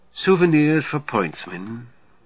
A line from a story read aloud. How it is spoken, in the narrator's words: Muffage sighs